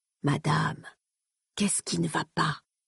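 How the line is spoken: Murmured. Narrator (French): murmura le Séon

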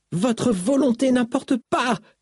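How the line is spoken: Shouted. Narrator (French): cria Syl

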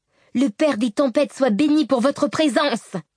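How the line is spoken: Shouted to group. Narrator (French): cria Shallan au groupe

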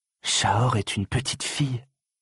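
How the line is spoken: Shocked murmur, prince. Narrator (French): murmura le prince, choqué

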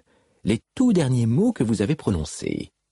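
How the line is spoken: Insistent. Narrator (French): dit Navani d'une voix insistante

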